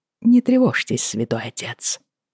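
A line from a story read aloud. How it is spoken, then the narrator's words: Soft, gentle. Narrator (Russian): мягко сказал Джейми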